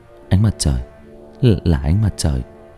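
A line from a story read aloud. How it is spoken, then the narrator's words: Muttering. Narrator (Vietnamese): Trọng lẩm bẩm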